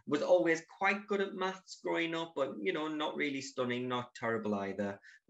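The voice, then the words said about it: Northeast English accent. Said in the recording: “graduated from university in the northeast of England. You can possibly tell by the accent.”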